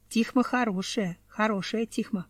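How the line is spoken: Plain. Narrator (Russian): сказала женщина

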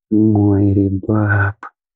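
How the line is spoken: Grief-stricken exhale. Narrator (Russian): сокрушенно выдохнул Лидор

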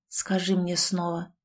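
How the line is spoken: Barely audible. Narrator (Russian): произнес едва слышно

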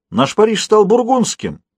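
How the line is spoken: Bystander exclaiming. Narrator (Russian): воскликнул кто-то из зевак

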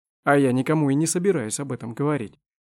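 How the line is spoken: Sharp. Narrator (Russian): резко заметил Помосков

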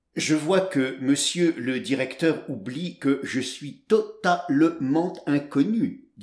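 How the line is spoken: Plain. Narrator (French): dit-il

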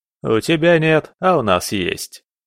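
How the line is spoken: Chuckling. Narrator (Russian): хохотнул Лерней

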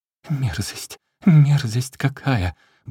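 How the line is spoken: Nonstop muttering. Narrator (Russian): бормотал безостановочно

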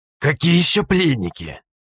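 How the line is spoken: Grumbling. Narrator (Russian): проворчал он

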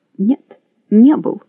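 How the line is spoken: Plain. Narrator (Russian): сказал Спейд

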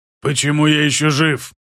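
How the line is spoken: Rasping through cut throat. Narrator (Russian): Раскроив себе горло, прохрипел пока оно не заросло

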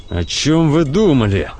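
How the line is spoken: Hissing through teeth. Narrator (Russian): сквозь зубы шипит Гудериан

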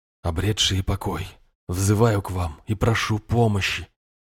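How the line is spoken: Quiet, unsure voice. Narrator (Russian): Мой собственный голос звучал негромко и как-то неуверенно

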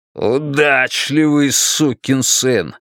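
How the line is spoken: Growled. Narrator (Russian): прорычал Стерлинг

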